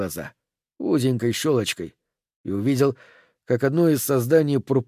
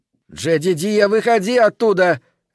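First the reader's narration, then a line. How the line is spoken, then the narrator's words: Shouting. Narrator (Russian): кричала она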